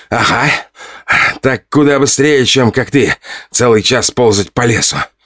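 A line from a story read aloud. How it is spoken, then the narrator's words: Smirking snort. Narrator (Russian): хмыкнул он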